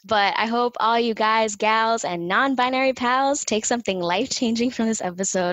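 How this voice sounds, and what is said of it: Miami accent. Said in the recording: “my Miami accent ... 305 ... how it jumps out sometimes”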